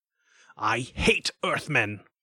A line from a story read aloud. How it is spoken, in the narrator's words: he spat out